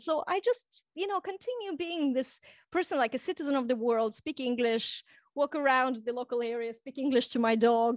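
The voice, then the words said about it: Blended international accent, not one place. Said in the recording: “It's a beautiful accent ... you hear certain thing, parts of places, but it doesn't sound like one place. It actually sounds like a blend of places”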